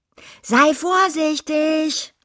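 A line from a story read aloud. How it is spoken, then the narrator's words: Calling after. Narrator (German): rief sie ihm nach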